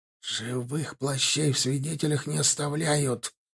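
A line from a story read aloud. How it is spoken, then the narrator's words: Hiss. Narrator (Russian): прошипел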